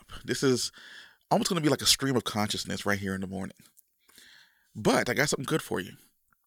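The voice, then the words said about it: Deep, just-woken-up voice. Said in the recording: “apologize for my voice ... Just waking up ... my voice is going to be nice and deep and rich ... the best I can do early in the morning”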